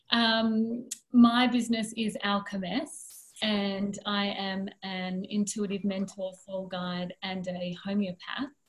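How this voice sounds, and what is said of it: Speaks with a distinct accent. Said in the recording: “I love your accent.”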